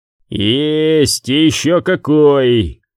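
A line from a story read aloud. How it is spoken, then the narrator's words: Gloomy snapping retort. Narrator (Russian): мрачно огрызнулся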